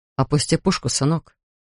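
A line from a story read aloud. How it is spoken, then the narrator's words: Quiet request. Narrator (Russian): тихо попросил Линкольн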